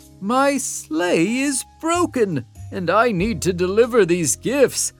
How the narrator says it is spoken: I exclaimed

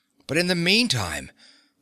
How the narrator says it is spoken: the Commandant snapped angrily

